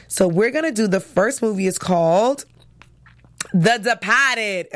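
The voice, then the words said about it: Boston accent. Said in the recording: “in my Boston accent”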